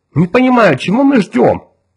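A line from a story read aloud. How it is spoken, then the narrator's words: Agitated. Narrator (Russian): взволнованно сказала Джоан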